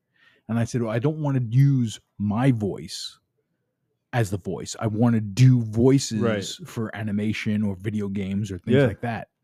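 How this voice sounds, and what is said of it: Brooklyn accent. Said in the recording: “my Brooklyn accent ... my Brooklyn accent”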